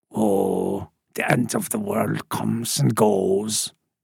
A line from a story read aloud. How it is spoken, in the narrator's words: Cooksey said